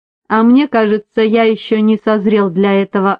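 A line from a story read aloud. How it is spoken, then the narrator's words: Plain. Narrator (Russian): ответил Финбоу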